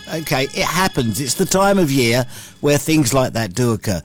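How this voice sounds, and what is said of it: Deeper, congested voice from a cold. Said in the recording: “I've got myself a cold ... my voice is a bit deeper and my nose is a bit wetter than it normally is”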